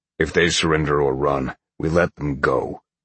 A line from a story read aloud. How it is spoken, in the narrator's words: Oak growled